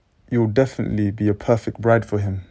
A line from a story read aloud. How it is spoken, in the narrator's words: laughed Majiro